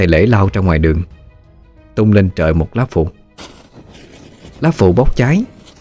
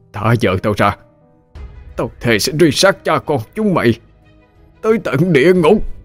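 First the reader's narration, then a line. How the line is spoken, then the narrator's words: Wounded, exhausted howl. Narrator (Vietnamese): Phong bị thương nặng kiệt sức, chỉ cố bò theo mà gào lên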